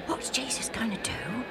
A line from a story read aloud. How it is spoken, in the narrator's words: Alf whispered to Joe